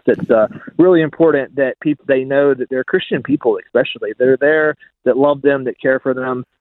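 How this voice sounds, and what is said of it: American accent. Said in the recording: “I know listeners will be able to hear your accent ... My accent betrays me for sure. Yeah, I'm American.”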